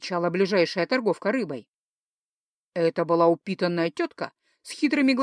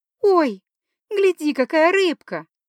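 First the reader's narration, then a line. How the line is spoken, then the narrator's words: Joyful exclamation. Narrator (Russian): радостно воскликнула Норандириэль, так, словно видела рыбу впервые в жизни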